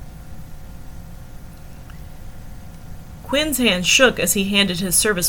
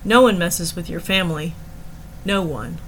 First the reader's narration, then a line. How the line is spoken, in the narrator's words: shrugged harshly